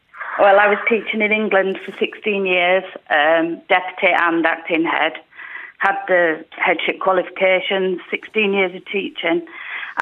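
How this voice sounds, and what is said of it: English accent. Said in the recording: “Is that an English accent? ... It is, yeah.”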